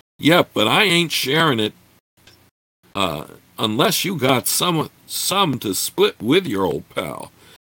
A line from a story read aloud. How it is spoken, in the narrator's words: The fellow leered at Gord, slurred